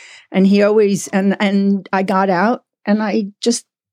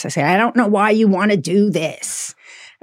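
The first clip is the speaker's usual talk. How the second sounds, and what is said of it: Imitates another person's voice. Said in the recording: “in my best Mike voice,”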